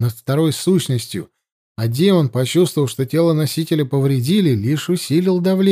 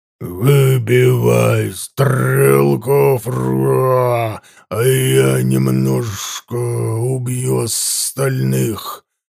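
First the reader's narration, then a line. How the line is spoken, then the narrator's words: Hissing growling command. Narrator (Russian): Шипяще рычащим голосом приказал я темному магу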